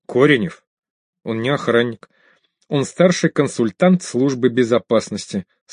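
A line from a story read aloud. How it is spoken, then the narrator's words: Calm clarification. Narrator (Russian): спокойно уточнил Хандачев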